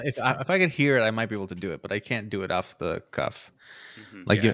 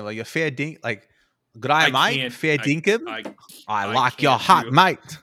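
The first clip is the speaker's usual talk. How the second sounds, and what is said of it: Put-on Australian accent. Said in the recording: “I do try hard to do it in Australian”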